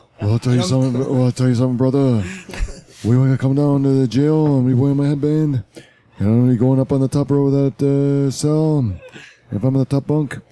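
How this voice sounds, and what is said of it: Imitates another person's voice. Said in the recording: “who is this, Sean Connery? ... great Snuka impression”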